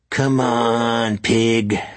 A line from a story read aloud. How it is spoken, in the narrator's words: snarled Ronan